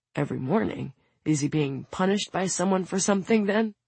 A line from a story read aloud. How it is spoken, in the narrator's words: Soon mutters